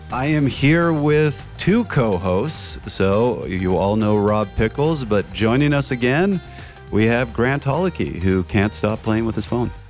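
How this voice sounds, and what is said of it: Deep, congested voice. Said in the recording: “with my full allergy deep voice going on today”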